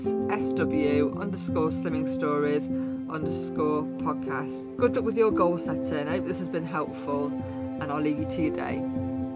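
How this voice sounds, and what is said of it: Mansfield English accent. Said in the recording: “my Mansfield accent”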